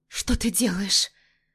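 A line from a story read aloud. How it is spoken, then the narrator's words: Frightened exhale. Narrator (Russian): Выдыхаю испуганно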